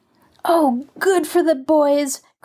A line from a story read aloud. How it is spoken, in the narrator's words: cried Marjorie gleefully